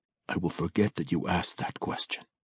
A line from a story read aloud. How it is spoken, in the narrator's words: he whispered